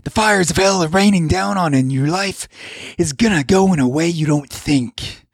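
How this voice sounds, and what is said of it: Wild wrestler-style Sam Kinison impression. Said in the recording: “a cross between a professional wrestler and a terrible Sam Kinison impression”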